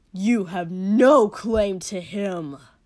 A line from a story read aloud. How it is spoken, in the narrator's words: he said furiously